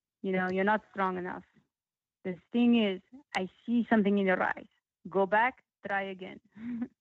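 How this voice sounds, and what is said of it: Put-on Russian accent. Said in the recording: “I don't know if you like my Russian accent. ... I love it. It's great.”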